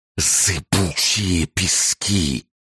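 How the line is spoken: Horrified eerie fading whisper. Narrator (Russian): с ужасом ответили Дюны, без конца повторяя это замирающим жутким шепотом, как будто злорадно разбалтывая какую-то новость

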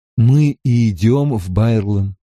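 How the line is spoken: Sleepy speech. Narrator (Russian): сонно произнес Ранд

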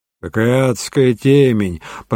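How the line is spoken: Grumbling. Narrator (Russian): проворчал Дребер

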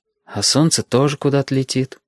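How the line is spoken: Sighing. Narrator (Russian): вздохнул Стасик

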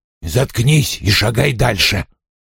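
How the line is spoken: Growling. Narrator (Russian): прорычал он

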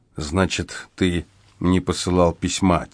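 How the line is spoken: Quiet summary. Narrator (Russian): тихо подытожил я

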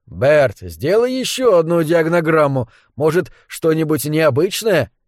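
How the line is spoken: Strained, barely forced out. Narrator (Russian): едва смог выдавить я

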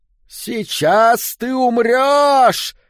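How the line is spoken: Shouted in deep booming baritone. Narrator (Russian): закричала рыжая Молли глубоким баритоном, усиленным объемистыми легкими

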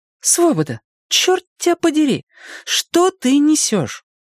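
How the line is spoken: Exclamation. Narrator (Russian): воскликнула

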